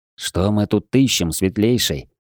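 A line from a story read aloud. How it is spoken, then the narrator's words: Muffled whisper. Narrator (Russian): приглушённым шёпотом поинтересовался Виктор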